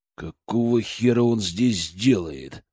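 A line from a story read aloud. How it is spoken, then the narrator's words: Growl under breath. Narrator (Russian): прорычал я себе под нос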